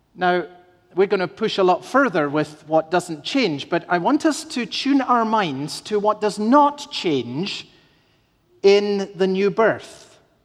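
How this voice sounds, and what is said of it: Speaks with an unusual accent. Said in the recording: “the rather strange accent with which it appears I grew up”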